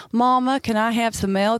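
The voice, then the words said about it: Child's deep Southern US accent. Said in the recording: “I had a proper deep South accent.”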